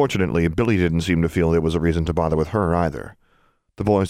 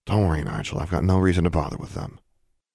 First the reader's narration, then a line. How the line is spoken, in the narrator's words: murmured